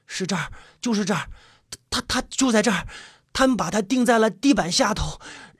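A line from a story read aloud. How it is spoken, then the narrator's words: Muttering to himself. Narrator (Chinese): 余生 不停的喃喃自语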